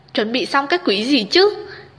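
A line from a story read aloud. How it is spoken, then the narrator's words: Angry. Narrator (Vietnamese): Tiểu Tiểu tức giận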